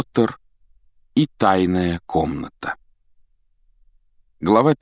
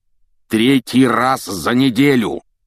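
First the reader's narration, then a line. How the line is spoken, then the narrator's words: Roared. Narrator (Russian): проревел он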